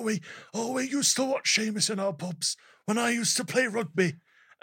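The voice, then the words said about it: Imitates another person's voice, poorly. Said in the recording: “this is a terrible Ridge Holland impersonation”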